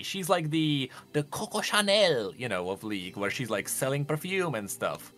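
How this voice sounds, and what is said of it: Good put-on French accent. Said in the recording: “That's a good French accent.”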